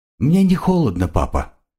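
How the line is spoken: Quiet child's voice. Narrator (Russian): тихо сказал ребенок

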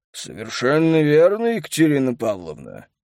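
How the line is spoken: Mocking booming voice. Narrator (Russian): насмешливо прогудел ей в ответ Мануилов

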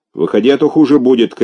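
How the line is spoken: Guard shouting. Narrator (Russian): крикнул охранник

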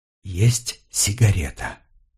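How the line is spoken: Whisper. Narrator (Russian): Анна прошептала

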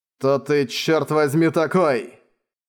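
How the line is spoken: Cold, through teeth. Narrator (Russian): холодно процедил Манхао

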